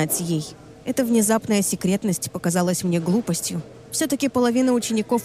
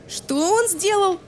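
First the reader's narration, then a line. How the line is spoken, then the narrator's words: Yelled. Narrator (Russian): заорала Лиззи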